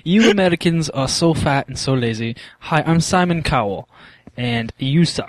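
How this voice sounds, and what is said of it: Put-on British accent. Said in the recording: “talking with a British accent ... It's a pretty good accent”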